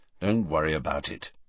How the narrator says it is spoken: said Harry grimly

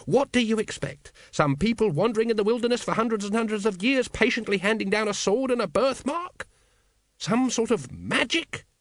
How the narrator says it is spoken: He spat the word

